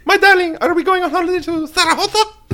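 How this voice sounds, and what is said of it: Imitates a Spanish queen's voice. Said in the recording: “my Queen of Spain impression”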